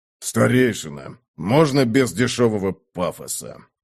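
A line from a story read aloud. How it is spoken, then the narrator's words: Creaky voice. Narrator (Russian): проскрипел Сухард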